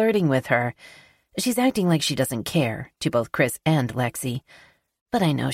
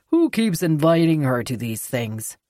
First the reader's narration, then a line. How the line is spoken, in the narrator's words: I laugh